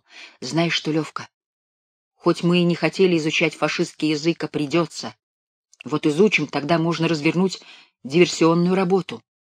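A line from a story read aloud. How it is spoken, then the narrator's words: Whisper. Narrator (Russian): шепнул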